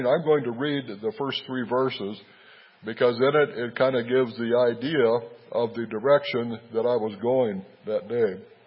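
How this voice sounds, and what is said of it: Rough, sick-sounding voice. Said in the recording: “I apologize for my voice. I've really been fighting a cold.”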